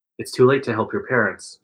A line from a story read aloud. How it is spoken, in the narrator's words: Jake says quietly